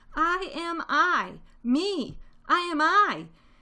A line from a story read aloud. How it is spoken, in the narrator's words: Shout at the top of your voice